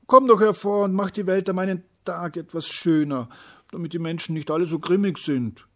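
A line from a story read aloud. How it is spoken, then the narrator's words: Calling out. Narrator (German): rief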